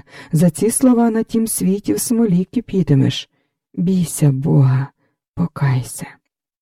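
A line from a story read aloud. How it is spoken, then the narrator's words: Calm after agitation. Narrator (Ukrainian): Софія вгамувалася, в очах погасло збудження, вона вже спокійно сказала Лоській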